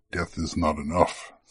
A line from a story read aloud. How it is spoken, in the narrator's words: said the porcine elf, quietly at first, but growing redder with every word